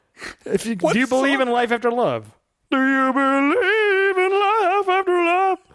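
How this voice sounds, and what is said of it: Sings imitating an auto-tuned voice. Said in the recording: “that's my impression ... auto-tuned ... I was abstracting it a little bit.”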